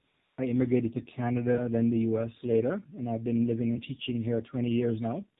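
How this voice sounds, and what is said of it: Jamaican accent. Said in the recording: “As you can probably tell by my accent, I wasn't born in the U.S. I'm a Jamaican.”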